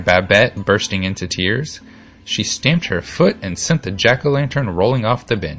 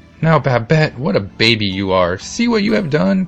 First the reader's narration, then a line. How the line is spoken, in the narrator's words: cried Antone